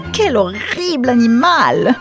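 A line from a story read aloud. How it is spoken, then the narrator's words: Exclaimed. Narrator (French): s'exclama Mrs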